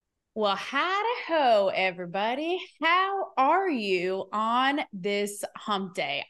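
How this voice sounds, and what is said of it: Fake sad Southern accent. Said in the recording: “my pseudo sad little Southern accent that I just made up on the spot ... like a Madonna British accent”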